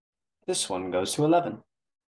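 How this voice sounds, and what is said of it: Put-on British accent. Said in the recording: “Why'd you do a British accent?”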